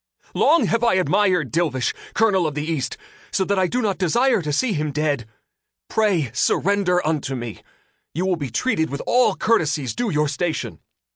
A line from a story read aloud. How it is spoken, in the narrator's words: He raced after Dilvish and called out